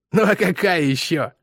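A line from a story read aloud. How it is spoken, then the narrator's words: Scoffing snort. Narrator (Russian): хмыкнул Бой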